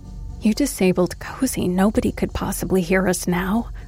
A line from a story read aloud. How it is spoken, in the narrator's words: whispered quietly